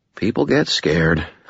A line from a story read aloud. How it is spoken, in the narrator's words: I murmured